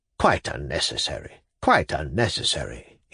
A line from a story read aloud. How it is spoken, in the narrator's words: he muttered to Pavel Pavlovich